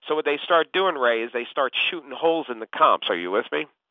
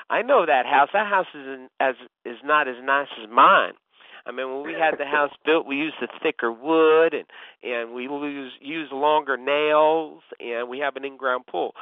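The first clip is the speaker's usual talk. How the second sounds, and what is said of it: Put-on Atlanta Southern accent. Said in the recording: “I'm going to do an Atlanta accent. ... I don't know if this is Atlanta”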